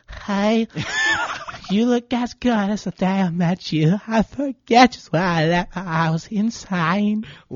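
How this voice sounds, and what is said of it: Imitates a pop singer's voice. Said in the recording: “my best Halsey impression ... I'm a little drunk”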